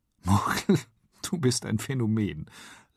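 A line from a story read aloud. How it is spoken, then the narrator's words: Laughing. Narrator (German): lacht sie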